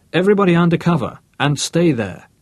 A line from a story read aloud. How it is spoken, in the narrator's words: Then, raising his voice